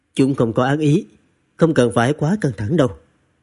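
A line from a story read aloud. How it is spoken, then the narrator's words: Light cough, calm. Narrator (Vietnamese): Quý công tử khẽ ho một tiếng, nói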